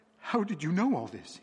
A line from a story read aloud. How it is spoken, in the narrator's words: cried